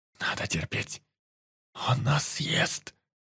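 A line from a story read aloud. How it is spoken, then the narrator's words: Whispered. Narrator (Russian): шептал Индус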